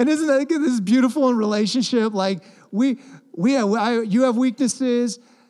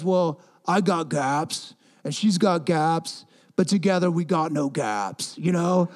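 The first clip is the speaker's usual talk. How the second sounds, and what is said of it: Deliberately poor movie character impression. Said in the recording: “that was the worst impression of Rocky ever”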